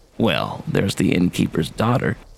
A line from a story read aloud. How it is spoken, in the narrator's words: whispered, and I said